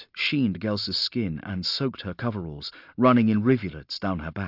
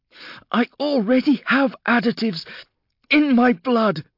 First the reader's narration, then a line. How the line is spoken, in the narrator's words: she gasped